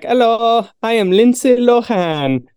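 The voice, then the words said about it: Put-on Mexican accent. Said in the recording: “Why does he have a Mexican accent?”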